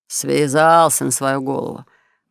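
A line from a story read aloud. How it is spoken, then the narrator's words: Grumbling. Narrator (Russian): ворчал мужичок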